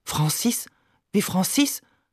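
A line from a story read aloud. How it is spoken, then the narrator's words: Murmured. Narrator (German): murmelt sie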